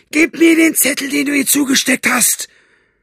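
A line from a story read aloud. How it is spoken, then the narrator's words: Screaming in his face. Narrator (German): Buster schrie es ihm ins Gesicht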